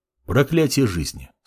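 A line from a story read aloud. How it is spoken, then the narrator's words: Calm. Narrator (Russian): спокойно произнес Мамор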